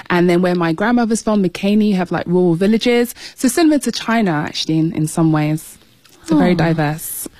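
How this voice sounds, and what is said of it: British accent. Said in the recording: “you might have been able to tell from ... accent that you grew up in the UK. It's great to have another Brit representing on the show”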